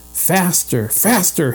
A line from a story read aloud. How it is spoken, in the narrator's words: Henry cried to himself